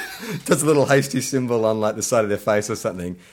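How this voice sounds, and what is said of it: Usual voice. Nothing is said of it.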